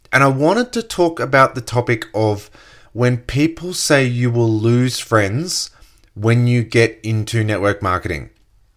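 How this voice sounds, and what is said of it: Slightly croaky voice. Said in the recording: “my voice is a touch croaky”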